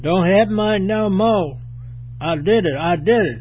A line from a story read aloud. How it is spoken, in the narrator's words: the youth hollered